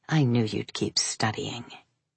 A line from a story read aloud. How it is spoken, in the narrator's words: Alfonso, who was stunned and murmured